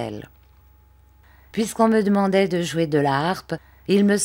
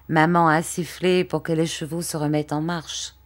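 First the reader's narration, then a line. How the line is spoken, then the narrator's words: Plain. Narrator (French): dit-il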